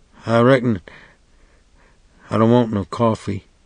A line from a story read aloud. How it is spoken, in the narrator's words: He said in a faint, desperate voice